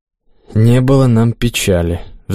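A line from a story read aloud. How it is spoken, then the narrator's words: Sighing priest. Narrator (Russian): вздохнул священник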